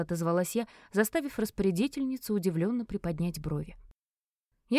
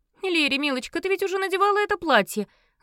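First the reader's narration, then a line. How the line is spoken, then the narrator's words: Loud gloating exclamation. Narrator (Russian): Злорадно и довольно громко воскликнула Марджи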